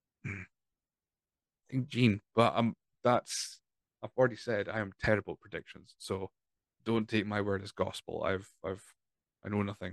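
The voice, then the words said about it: Strained, fading voice. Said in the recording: “My voice is dying, as you can hear”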